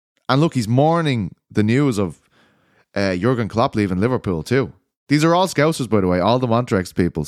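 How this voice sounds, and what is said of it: Irish accent. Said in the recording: “I felt like I had the strangest accent. I'm Irish”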